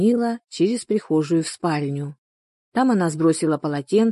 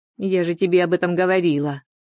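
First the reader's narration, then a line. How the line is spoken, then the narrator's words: Angry reply. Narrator (Russian): сердито ответила Анна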